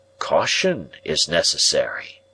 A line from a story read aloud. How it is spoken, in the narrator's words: he said, dropping his voice